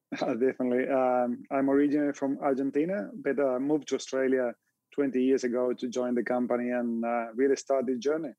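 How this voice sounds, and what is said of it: Slight foreign accent. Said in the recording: “a little bit of an accent there”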